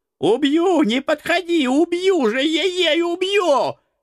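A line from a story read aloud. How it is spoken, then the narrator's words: Shrieking. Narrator (Russian): визжал бес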